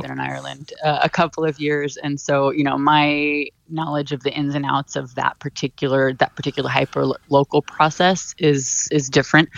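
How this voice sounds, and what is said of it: American accent. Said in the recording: “you might be able to tell from my accent, I'm from the U.S.”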